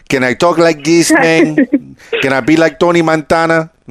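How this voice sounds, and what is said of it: Exaggerated Cuban Miami accent. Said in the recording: “I'm a Cuban guy. You know, white guy from Miami. ... it's not my natural accent. But it sounds like my grandfather a little bit.”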